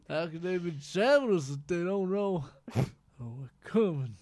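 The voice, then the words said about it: Imitates another person's voice. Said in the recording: “You do a Lando impression ... Uncanny. ... It's perfect.”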